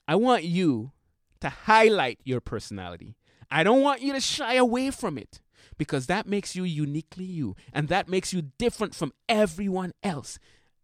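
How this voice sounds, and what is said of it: St. Martin accent. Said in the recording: “this St. Martin accent ... with my accent”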